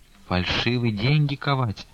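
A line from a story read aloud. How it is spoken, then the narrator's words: Whisper. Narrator (Russian): шепотом промолвила мать Таифа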